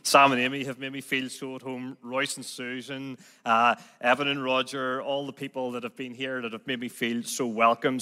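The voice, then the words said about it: Northern Irish Belfast accent. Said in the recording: “I'm still stuck with this Belfast accent. So I do hope that you'll be able to understand me. ... So you're stuck with this Belfast accent.”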